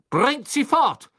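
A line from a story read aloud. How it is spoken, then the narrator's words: Thundering, spitting rage. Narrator (German): donnerte und Speicheltropfen flogen ihm aus dem Mund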